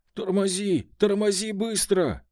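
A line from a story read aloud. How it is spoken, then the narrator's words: Sudden yell in ear. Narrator (Russian): заорал вдруг мне прямо в ухо Бабарыкин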